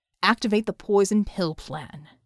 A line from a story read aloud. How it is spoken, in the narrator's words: he snarled to Kanjar